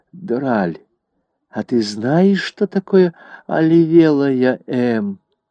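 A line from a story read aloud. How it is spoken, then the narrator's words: Whisper. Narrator (Russian): Дуа шепнула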